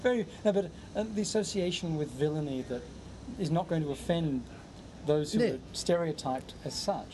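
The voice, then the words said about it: Australian accent. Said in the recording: “I have the same accent as villains in action adventure films ... that's what an Australian accent's good for, surely. It's a very villainous accent”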